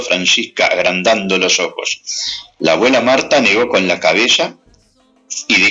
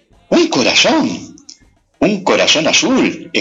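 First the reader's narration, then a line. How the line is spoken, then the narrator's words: Excited exclamation while hopping. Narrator (Spanish): exclamó Francisca dando saltitos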